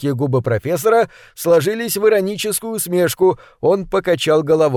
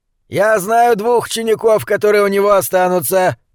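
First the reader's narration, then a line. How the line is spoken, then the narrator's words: Growled. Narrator (Russian): прорычал Шенц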